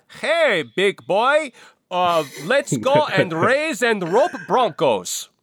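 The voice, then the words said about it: Attempted disguised accent, passable. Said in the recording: “I'm going to try to disguise my accent ... that's good. I mean, it's not great, but it's okay.”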